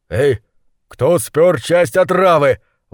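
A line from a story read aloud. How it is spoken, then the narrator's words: Exclaiming. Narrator (Russian): воскликнул он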